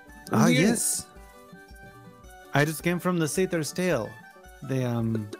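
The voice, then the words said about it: Vague put-on European accent. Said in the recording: “my terrible French accent ... Your vague European accent ... Vague, vague European ... it's slipping a little ... it gets more and more Eastern as the conversation progresses”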